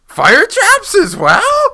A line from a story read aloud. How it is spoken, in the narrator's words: Linky squeaked